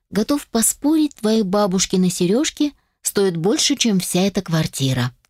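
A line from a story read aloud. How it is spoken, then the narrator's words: Unexpectedly soft. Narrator (Russian): сказал он неожиданно мягко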